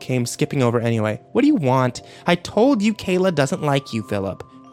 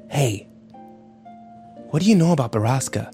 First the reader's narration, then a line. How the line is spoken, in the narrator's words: Ike whispered to him